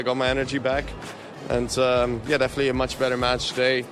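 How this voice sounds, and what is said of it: Voice sounds a little sick. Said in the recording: “I think you can still hear it by my voice. I'm a little bit sick”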